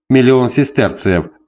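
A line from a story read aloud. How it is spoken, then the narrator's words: Emperor guffawing. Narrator (Russian): захохотал император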